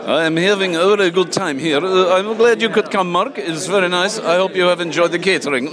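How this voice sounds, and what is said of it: Put-on Swedish accent. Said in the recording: “is that the accent you were using for your margarine advert earlier? ... That's my Swedish accent.”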